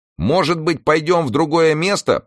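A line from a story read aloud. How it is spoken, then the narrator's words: Shouted into ear. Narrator (Russian): прокричал Ньютон ей на ухо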